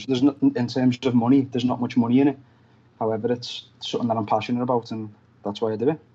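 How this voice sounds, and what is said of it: Fast Liverpool English accent. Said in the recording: “my accent and hope everyone can understand what I'm saying ... us people in Liverpool talk fast”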